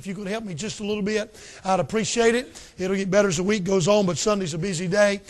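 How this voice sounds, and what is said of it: Raspy voice. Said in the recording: “My voice is going to be kind of raspy.”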